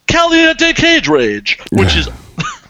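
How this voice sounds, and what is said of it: Cheesy announcer voice. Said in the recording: “Cheesy announcer voice”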